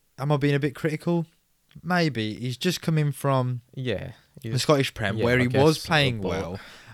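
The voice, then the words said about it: Strained, fading voice. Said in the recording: “my voice is going”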